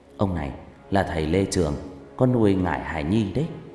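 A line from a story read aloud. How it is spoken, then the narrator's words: Quiet aside. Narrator (Vietnamese): Khánh khẽ quay sang Ngọc Lam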